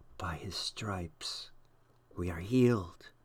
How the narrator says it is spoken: Someone next to Jonathan whispered

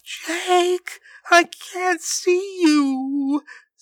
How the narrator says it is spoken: sobbed his sister

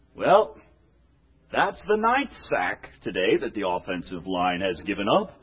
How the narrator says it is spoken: In a melancholy voice say

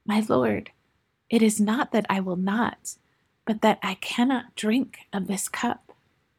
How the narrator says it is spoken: gasping for a moment, and then said very quietly and softly through the silence

